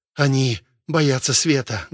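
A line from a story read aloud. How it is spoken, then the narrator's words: Loud whisper. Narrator (Russian): громко прошептал Вильям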